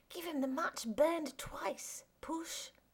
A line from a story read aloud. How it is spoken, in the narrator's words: Eugene whispered